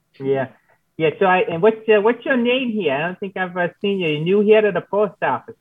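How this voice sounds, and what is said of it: Put-on Minnesota accent. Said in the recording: “Harold's voice is going to tug you over to Minnesota ... It is contagious. It's a contagious accent.”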